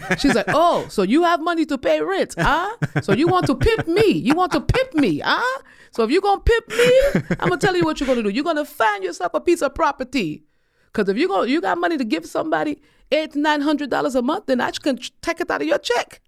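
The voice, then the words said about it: Imitating mother's accent. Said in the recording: “with my mother's accent”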